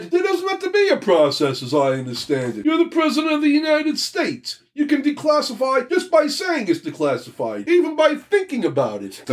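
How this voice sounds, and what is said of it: Poor imitation of another person's voice. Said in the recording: “Don't ever do that accent. ... You don't like my Donald Trump impersonation? ... It's bad. No, it's bad. It's not a Donald Trump.”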